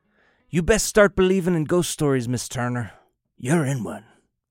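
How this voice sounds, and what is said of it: Jack Sparrow pirate accent impression. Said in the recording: “Thank you for the accent. ... the fictional Captain of the Black Pearl in Pirates of the Caribbean”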